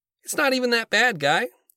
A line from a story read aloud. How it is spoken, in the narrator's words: Jerry chirps in